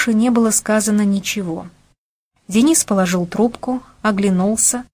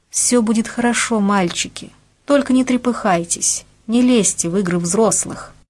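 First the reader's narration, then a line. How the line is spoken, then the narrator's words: Lady, unexpectedly very soft. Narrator (Russian): дама неожиданно сказала очень мягко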